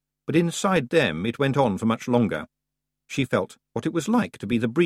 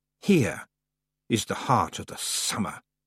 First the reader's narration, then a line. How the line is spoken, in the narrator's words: hissed the voice of the summer lady